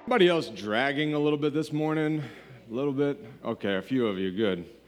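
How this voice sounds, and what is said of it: Unusually deep, low voice. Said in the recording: “normally I don't sound quite so much like Barry White, but allergies are awesome ... my voice is a little bit deeper today”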